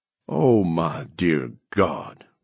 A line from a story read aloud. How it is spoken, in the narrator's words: Weems groaned